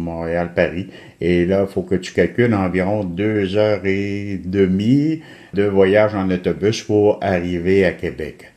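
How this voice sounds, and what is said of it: Quebec French accent. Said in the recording (French): “vous m'avez fait rêver avec votre accent.”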